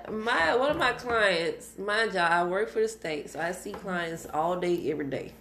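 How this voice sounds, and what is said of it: Country Texas accent. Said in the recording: “how country I am ... I'm so glad to be back in Texas ... I get to hear your accent.”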